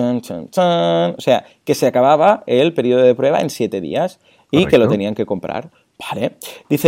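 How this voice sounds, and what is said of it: Usual voice. Nothing is said of it.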